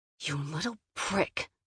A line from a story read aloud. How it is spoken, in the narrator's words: I hissed